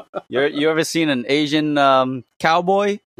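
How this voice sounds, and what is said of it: Put-on cowboy accent. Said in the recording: “with the cowboy accent”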